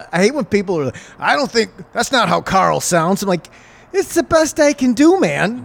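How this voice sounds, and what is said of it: Usual voice. Nothing is said of it.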